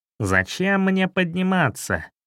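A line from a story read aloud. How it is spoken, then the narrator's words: Scoffing snort. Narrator (Russian): хмыкнул шрам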